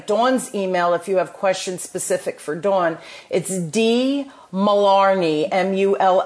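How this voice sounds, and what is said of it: New Jersey accent. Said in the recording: “that was just screaming my Jersey accent ... my Jersey accent”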